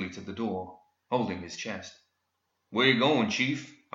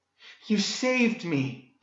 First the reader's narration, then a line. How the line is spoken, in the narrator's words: Daphne breathed